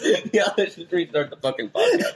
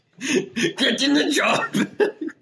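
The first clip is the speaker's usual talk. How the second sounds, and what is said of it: Terminator character voice impression. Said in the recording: “my Terminator impression”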